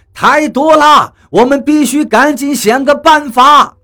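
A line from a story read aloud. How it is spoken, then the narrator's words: Shouting. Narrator (Chinese): 他大叫道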